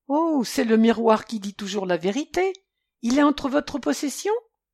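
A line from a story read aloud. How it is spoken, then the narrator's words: Young man exclaiming. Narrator (French): s'exclama le jeune détective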